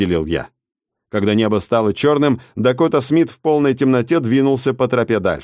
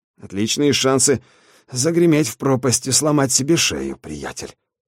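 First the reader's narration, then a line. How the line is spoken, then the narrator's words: Grumbling. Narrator (Russian): ворчал он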